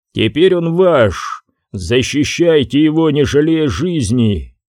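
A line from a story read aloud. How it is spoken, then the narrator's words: Loud frenzied roar. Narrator (Russian): все гости громко вскричали, и от их неистового рева задрожали камни и языки пламени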